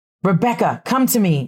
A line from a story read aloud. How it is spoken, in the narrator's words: shouted Abigail